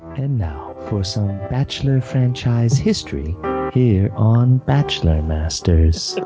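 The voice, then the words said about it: Sexy announcer-style voice. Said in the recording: “I want to hear ... sexy voice.”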